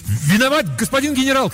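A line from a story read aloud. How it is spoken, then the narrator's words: Shouted after someone. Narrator (Russian): крикнул я вслед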